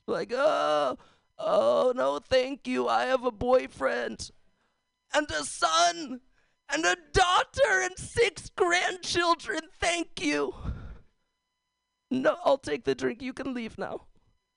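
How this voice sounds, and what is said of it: Imitates an elderly person's voice. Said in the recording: “my old person impression. ... It's not very good now”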